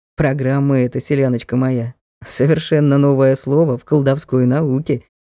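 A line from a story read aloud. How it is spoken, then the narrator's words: Smirking snort. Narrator (Russian): хмыкнул Ник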